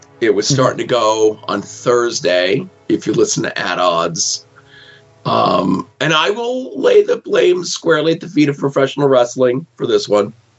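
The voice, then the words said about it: Hoarse, strained sick voice. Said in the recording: “I'm not feeling well... As you're going to hear, my voice is kind of shot.”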